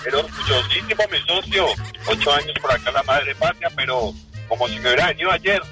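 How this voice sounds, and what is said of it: Colombian Spanish accent. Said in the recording (Spanish): “Mi acento no cambia... Y soy 100% colombiano”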